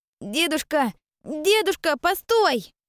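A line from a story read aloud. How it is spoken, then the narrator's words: Child shouting. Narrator (Russian): кричал босоногий мальчонка лет 7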